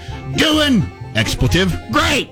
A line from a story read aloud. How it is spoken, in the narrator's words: he allegedly shouted